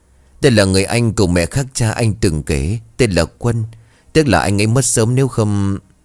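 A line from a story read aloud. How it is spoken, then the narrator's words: Smiling. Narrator (Vietnamese): Nghĩa mỉm cười cậu nói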